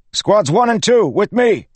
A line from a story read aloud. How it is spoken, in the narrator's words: he shouted